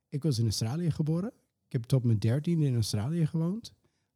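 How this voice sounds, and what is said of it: Unusual foreign accent in Dutch. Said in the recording (Dutch): “dat je een eh, apart accent hebt”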